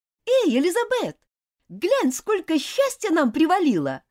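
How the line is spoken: Cheerful woman. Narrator (Russian): весело сказала Дженни

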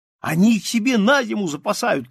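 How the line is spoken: Boys shouting. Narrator (Russian): кричали мальчики

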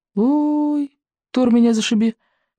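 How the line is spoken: Embarrassed squeak. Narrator (Russian): пискнул рыбьенок, стремительно заливаясь малиновой краской

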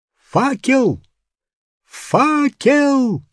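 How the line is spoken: Shouting. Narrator (Russian): закричал профессор

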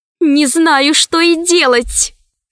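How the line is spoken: Plain. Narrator (Russian): сказала Алиса

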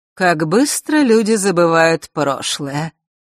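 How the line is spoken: Mock sigh. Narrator (Russian): притворно вздохнула повелительница лютов

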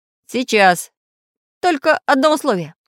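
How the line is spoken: Stern warning. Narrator (Russian): строго предупредил Самоделкин пиратов

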